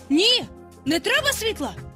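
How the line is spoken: Shout. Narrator (Ukrainian): крикнув він

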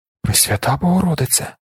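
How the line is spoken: Young man whispering. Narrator (Ukrainian): прошепотів юнак з пушком на підборідді

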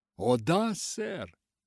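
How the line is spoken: Little girl's exclamation. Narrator (Russian): воскликнула малышка

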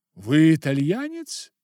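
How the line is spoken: Exclamation. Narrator (Russian): воскликнула Ингрид

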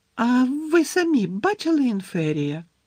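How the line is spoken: Squeaky question. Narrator (Ukrainian): писклявим голосом запитала Парваті Патіл

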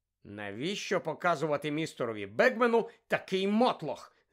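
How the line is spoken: Hissed. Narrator (Ukrainian): засичав Персі

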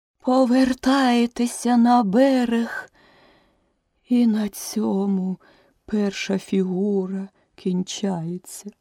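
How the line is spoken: Suddenly weakened voice. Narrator (Ukrainian): закінчила черепаха несподівано ослаблим голосом

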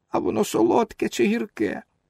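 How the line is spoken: Whiny tearful question. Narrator (Ukrainian): Пінокіо спитав плаксивим голосом

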